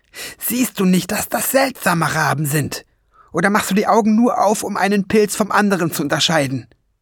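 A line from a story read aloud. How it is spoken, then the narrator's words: Angry growl. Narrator (German): Schwefelfell knurrte ihn böse an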